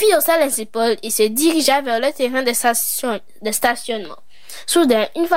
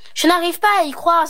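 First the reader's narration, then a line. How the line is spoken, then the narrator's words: Exclaiming in disbelief. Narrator (French): s'exclama la mère de Sophie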